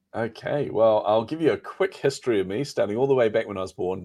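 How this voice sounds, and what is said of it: New Zealand accent. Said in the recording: “New Zealand accent”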